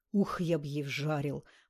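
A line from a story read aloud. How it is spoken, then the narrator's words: Through gritted teeth. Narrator (Russian): процедил Туча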